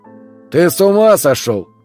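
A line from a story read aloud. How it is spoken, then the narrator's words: Shouted. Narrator (Russian): крикнул Марк Анатольевич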